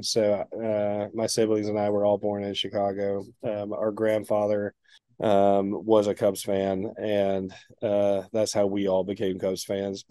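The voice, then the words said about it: East Tennessee accent. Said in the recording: “I have an accent, obviously. I grew up in East Tennessee”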